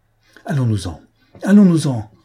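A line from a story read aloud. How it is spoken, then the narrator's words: Frightened cry. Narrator (French): s'écria-t-il en un sursaut d'effroi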